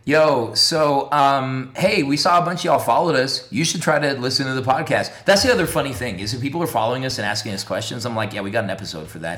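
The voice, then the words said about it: Hoarse, strained voice from yelling. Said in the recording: “I yelled all day. ... My voice is going.”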